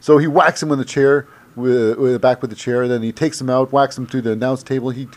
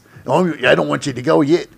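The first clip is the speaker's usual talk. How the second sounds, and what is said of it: Put-on Australian accent. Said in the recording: “That's my Australian accent.”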